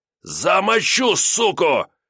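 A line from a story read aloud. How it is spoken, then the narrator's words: Angry shout. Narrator (Russian): злобно выкрикнул он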